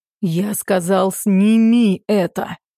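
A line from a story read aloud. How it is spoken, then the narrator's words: Growled. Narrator (Russian): Прорычал Макс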